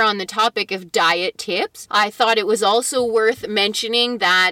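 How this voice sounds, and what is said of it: Usual voice. Nothing is said of it.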